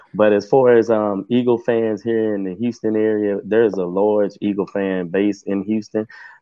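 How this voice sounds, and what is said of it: Texan accent. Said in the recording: “I am from Texas, so sometimes my accent comes through like teeter off of Yellowstone. So excuse me if you can't understand some of the things I'm saying.”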